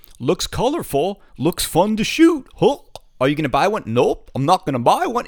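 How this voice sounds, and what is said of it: Goofy put-on voice. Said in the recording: “doing a goofy voice”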